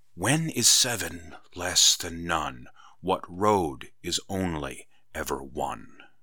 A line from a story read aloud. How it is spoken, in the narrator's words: Kendra whispered